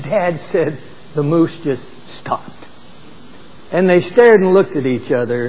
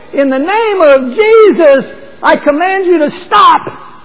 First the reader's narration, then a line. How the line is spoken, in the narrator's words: he cried out at the top of his voice